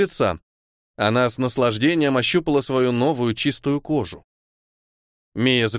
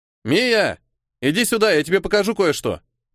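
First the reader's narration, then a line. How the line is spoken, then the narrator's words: Shouted. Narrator (Russian): крикнул он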